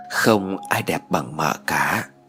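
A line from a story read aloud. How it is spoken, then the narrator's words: Slow tender murmur. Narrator (Vietnamese): cậu chậm rãi thủ thỉ nói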